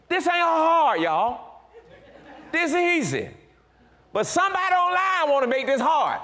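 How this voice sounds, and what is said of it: Excited yelling. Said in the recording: “why are you yelling?... I'm excited... I want to yell.”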